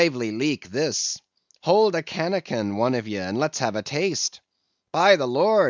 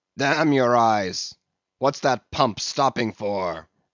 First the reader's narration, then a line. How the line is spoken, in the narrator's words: roared Radney